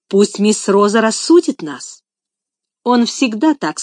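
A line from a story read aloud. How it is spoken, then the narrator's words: Angry woman's remark. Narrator (Russian): сказала квартиронка, сердито глядя на Адольфа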